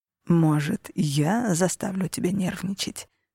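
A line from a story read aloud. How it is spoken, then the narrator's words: Purring. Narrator (Russian): промурлыкал Алессандро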